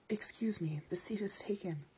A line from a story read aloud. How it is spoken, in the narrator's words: I whispered